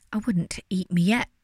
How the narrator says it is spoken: stammered Herb, desperately trying to think of a plan to distract the wolves from wolfing him

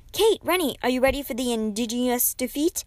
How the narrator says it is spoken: shouted Rhonda from across the courtyard

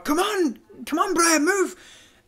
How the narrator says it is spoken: you shout

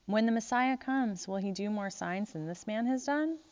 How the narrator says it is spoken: the crowd muttering

